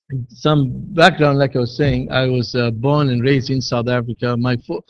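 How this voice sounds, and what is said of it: Non-American accent. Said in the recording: “my accent isn't conforming to the American accent”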